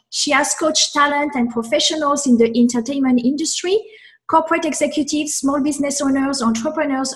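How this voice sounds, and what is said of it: Speaks with an accent. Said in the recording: “you make my bio sound so much better with your accent”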